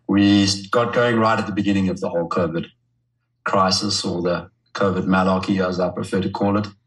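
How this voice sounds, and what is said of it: South African accent. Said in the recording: “South African, hence the funny accent.”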